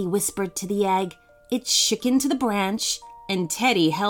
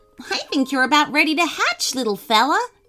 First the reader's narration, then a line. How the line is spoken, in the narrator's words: Teddy chuckled